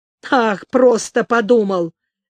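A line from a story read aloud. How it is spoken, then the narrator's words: Barking. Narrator (Russian): рявкнул Шишак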